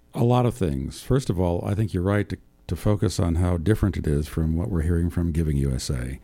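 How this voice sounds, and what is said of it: Deep resonant radio voice. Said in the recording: “I love that deep radio voice.”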